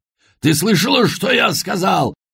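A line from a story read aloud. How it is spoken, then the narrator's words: Roaring over bells. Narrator (Russian): взревел он, стараясь перекричать проклятые колокола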